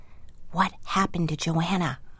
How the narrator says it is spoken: whispered

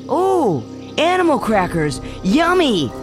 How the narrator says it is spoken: the boy shouted

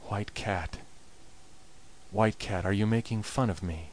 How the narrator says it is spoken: he himself began to wonder, and muttered softly

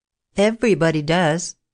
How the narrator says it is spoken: Judith answered with a little laugh

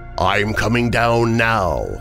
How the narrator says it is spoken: the voice boomed again

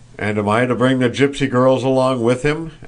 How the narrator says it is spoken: asked Nicholas, laughing

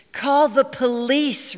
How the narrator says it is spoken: Rini said wearily

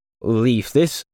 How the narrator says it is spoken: Ken stuttered

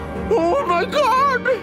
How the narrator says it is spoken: Valerny screamed through her fingers

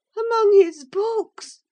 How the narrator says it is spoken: she cried, confounded

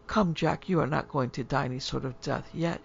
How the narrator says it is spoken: she said, tenderly

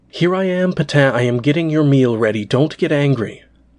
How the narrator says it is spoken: She cried through the ceiling

